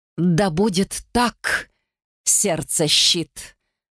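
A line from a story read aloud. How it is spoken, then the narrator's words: Mocking, through clenched teeth. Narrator (Russian): С насмешкой процедил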